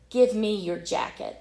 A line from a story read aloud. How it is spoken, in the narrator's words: said the ragman firmly